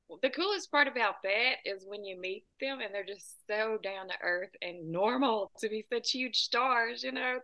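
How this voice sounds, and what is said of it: Southern US accent. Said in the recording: “that accent sounds like Nashville ... A little more south than that. I'm about 2 hours south of Nashville ... Sometimes when people hear my accent, they say Texas”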